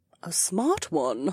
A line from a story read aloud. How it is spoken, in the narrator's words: Dolwyn muttered under her breath